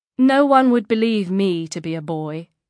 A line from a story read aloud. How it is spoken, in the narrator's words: Nuria said calmly